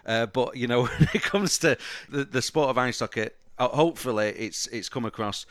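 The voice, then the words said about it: Manchester accent. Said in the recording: “You can hear the accent. I'm a Manchester lad”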